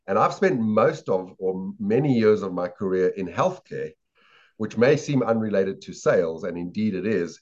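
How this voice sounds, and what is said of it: Non-American accent. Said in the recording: “you'll very quickly tell from my accent that I'm not from America”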